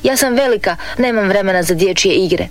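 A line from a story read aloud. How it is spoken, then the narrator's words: Shouting. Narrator (Croatian): Marina uvijek viče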